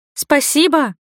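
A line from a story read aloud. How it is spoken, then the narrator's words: Shout. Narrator (Russian): крикнула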